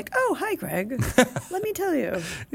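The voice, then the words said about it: Imitated voice resembling C-3PO impression. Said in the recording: “That's your Jeremy impression? ... It's very much like your C-3PO.”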